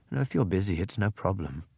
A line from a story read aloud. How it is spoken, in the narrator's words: she said huskily